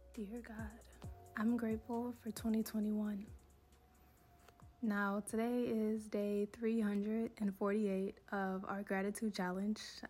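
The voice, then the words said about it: Voice sounds unwell. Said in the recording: “Excuse my voice. I am still not feeling well”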